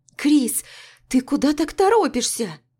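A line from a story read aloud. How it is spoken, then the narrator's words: Squealed while dragged. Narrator (Russian): Взвизгнула Маруся, когда я практически волоком потащила ее к автобусной остановке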